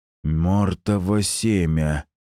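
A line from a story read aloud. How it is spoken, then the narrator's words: Hissed. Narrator (Russian): прошипел Эдмунд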